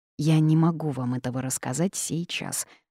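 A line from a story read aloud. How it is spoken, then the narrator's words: Sighing. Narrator (Russian): вздохнула я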